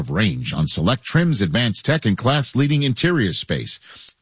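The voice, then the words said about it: New York accent slipping out. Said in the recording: “My New York accent just came back out there when I said interior.”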